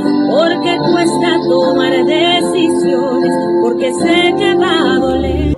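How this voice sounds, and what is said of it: Singing, imitates another person's voice. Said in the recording (Spanish): “Buena imitación de Thalía”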